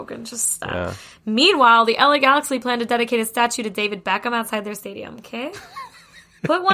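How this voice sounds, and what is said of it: Usual voice. Nothing is said of it.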